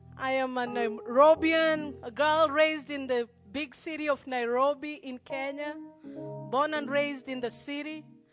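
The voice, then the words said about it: Kenyan accent mixed with American. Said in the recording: “my accent sounds a little weird, it's because I'm torn between three accents ... I'm trying to fit into the American accent, which normally doesn't work”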